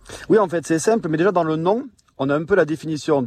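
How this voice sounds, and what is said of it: Toulouse French accent. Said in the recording (French): “mon accent toulousain”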